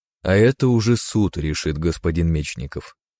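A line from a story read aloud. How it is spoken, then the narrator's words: Plain. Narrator (Russian): сказал унтер-офицер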